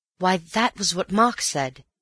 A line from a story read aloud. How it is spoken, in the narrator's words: he cried